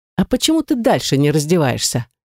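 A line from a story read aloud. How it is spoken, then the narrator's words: Snide question. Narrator (Russian): ехидно поинтересовалась я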